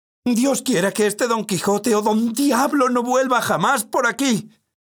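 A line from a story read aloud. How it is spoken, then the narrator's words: Innkeeper woman shouting. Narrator (Spanish): gritaba la ventera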